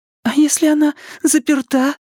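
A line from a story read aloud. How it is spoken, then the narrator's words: Squeaking. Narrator (Russian): пискнула Беверли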